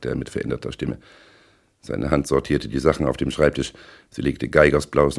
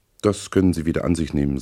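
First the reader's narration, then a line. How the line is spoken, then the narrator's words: Plain. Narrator (German): sagte er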